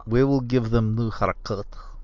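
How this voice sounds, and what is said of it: Put-on Russian accent, verging Arabic. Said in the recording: “I can't get a Russian accent out today... it's almost verging a little into Arabic... better. But we're close. It was improved.”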